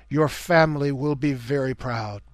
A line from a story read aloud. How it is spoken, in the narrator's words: The queen turned gentle eyes on him as she murmured